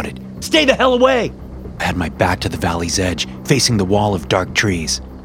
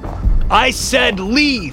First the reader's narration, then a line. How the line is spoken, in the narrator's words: I shouted at the top of my lungs